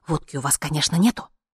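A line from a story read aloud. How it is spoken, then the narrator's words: Eager hot whisper. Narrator (Russian): жарким шепотом он поинтересовался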